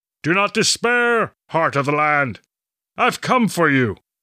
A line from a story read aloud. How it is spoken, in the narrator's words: he bellowed